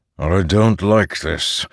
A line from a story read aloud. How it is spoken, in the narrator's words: the storm wall growled softly